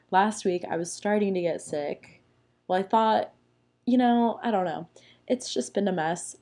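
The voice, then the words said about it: Raspy, sick-sounding voice. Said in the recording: “I'm kind of a little raspy. I got a little raspy voice because I'm sick. ... Sorry for the sick voice.”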